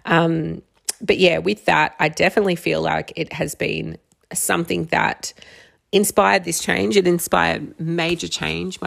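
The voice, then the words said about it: Strained, fading voice. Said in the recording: “My voice is going now.”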